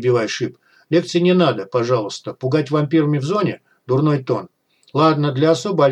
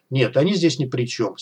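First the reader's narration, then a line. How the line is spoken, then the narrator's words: Calm. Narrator (Russian): спокойно ответил Бай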